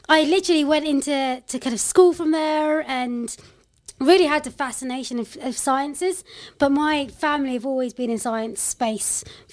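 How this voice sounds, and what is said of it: London accent. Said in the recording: “I'm a proper Londoner, I'd say. You could probably tell from this accent.”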